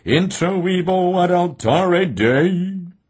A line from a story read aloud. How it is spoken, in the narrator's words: intoned